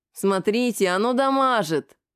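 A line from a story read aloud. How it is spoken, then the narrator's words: Nasal giggle. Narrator (Russian): гнусаво хихекнул синяк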